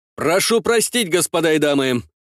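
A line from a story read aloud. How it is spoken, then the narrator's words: Loud soldier. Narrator (Russian): громко говорил один из военных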